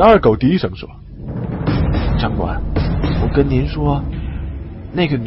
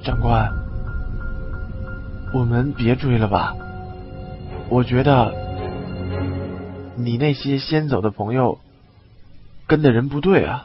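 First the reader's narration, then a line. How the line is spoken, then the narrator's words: Low voice after pause. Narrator (Chinese): 李二狗沉默片刻，低声说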